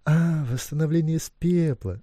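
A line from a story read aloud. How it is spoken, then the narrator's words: Laughing. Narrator (Russian): рассмеялся он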